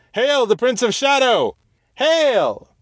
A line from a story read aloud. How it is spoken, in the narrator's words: the others shouted in answer, and as one